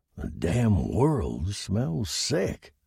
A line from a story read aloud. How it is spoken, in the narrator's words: he grunted